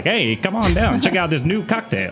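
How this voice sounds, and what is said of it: Old-timey newscaster voice. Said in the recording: “old news voice”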